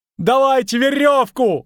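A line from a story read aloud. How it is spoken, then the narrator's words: Yelling. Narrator (Russian): орал Лютик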